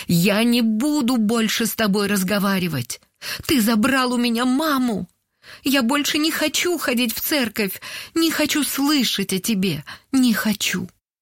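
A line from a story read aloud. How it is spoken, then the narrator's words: Tearful shout. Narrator (Russian): Сквозь слезы она прокричала в пасмурное небо после похорон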